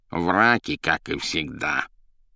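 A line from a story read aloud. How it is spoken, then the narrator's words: Grumbling. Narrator (Russian): ворчала Азазелла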